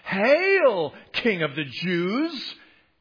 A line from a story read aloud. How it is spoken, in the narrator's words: they mocked him